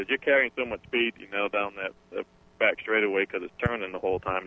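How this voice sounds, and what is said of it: Massachusetts accent. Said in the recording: “I'm loving that accent. ... I'm a Yankee. I'm from Massachusetts. ... Quincy, Mass. is where I was born and raised.”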